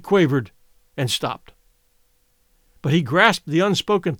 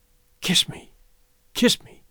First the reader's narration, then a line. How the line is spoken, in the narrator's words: whispered, her face lighting